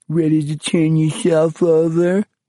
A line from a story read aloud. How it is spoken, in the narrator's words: Bruno jeered shrilly